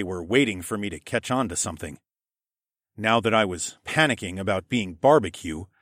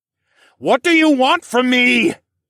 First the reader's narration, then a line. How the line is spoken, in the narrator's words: I yelled